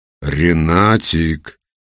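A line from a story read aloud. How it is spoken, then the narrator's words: Menacing. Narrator (Russian): грозно повторил Петр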